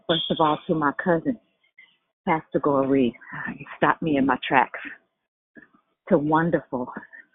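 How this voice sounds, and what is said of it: Out of breath, breathless. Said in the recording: “I'm out of breath because I'm at the gym”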